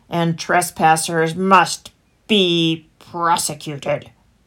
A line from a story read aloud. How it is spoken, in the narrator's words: growled the fox